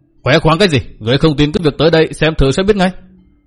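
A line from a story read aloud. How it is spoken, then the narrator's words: Loud angry shout. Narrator (Vietnamese): Hoàng Diện Phong Cái trợn mắt quát lớn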